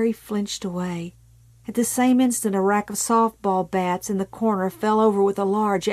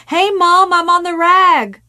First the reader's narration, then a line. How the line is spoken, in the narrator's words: She herself had begun menstruation shortly after her 11th birthday and had gone to the head of the stairs to yell down excitedly